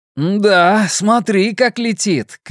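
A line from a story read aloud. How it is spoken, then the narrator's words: Joyful shout, laughing. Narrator (Russian): крикнул Луис в ответ и рассмеялся от радости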